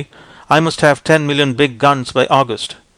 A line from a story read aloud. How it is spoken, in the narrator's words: saying firmly